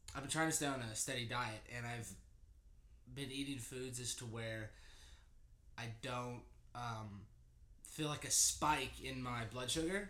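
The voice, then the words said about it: Stuffy congested voice. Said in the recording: “I've had this head cold. So I apologize if my voice is like stuffy.”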